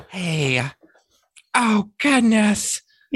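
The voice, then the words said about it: Jennifer Coolidge impression. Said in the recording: “do a Jennifer Coolidge voice? ... That was good.”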